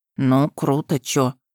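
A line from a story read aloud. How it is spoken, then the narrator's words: Mumbled. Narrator (Russian): пробормотал Веня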